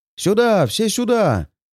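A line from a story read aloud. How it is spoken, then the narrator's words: Shouting. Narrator (Russian): кричал он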